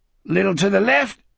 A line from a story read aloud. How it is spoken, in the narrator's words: Speedy gasped